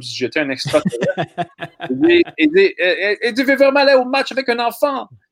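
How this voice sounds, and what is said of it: Bad put-on Italian accent. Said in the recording (French): “J'ai fait un accent terrible ... vos partisans italiens”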